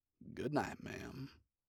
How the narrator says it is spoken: so gently she thinks, hopes, it holds the barest trace of affection, Stryker murmurs

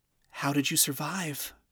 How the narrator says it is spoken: Charlie asked gently

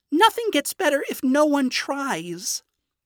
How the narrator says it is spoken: Charlie exclaimed, sad and frustrated, her demon form taking over

